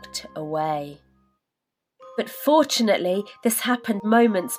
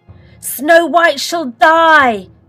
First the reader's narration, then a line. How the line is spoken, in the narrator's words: she cried,